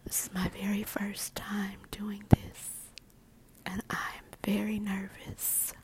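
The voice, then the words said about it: Soothing whisper. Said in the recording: “my voice is soothing. My whispers”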